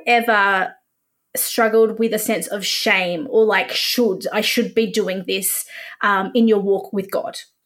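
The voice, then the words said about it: Australian accent. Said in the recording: “Should. Australian. Should. ... I love your accent. ... you sound like you belong in Hillsong.”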